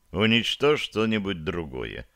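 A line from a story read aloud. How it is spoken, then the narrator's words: Calm. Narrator (Russian): спокойно ответил Самсон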